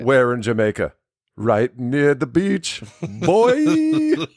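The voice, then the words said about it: Put-on Jamaican accent. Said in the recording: “It's the best Jamaican accent I can do.”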